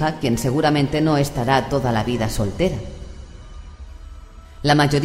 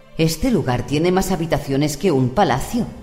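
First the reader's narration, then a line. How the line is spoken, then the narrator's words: Exclaimed. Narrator (Spanish): exclamó Elizabeth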